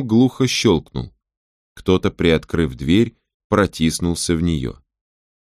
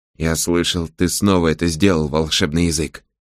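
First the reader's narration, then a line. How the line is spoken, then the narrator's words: Whispering. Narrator (Russian): шепотом произнес Сожирук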